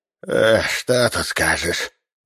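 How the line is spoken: Deep sigh, trained voice. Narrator (Russian): Бизнесмен глубоко вздохнул и продолжил хорошо поставленным голосом

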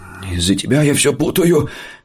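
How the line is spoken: Groaning. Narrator (Russian): простонал я

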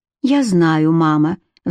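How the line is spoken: Sigh. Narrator (Russian): вздохнула Кэтрин

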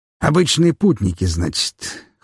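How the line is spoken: Skeptical snort. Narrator (Russian): хмыкнул барон Гедеон

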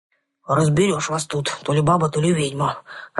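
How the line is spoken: Rolling deep bass. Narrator (Russian): раскатистым басом прогудел леший

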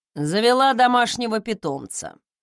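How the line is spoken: Amused snort. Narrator (Russian): хмыкнул Фостон, с улыбкой

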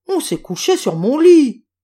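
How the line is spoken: Deep gruff shout. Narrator (French): cria le papa ours de sa grosse voix

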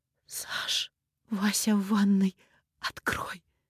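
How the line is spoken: Muffled breathy exhale. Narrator (Russian): Она прикрыла рот рукой и выдохнула

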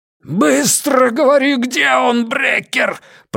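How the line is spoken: Roar. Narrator (Russian): проревел Пекка ему в лицо

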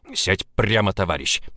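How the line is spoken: Growl. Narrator (Russian): прорычал Влад

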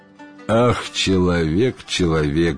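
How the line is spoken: Sighing, several voices. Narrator (Russian): вздохнули джинны

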